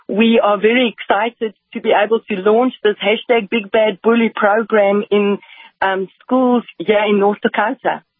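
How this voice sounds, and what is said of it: Slight accent. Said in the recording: “I detect just a little bit of an accent”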